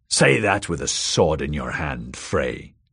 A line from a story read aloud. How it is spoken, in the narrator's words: the small man snarled